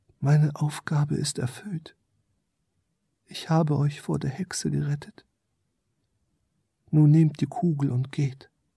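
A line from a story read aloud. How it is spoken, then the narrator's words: Quiet small creature. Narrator (German): Das kleine Wesen sprach leise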